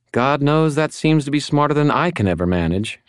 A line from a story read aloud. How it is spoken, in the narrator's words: I sighed